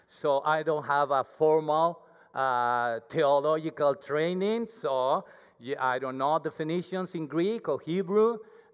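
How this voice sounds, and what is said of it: Thick Mexican accent in English. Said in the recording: “I'm not 100% fluent in English ... my accent, my Mexican accent. It's very thick.”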